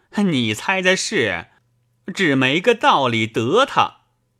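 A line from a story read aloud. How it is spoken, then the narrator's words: Laughing. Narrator (Chinese): 衙内笑道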